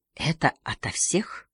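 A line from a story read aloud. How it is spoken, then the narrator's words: Whisper. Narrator (Russian): шепнул Харри Беате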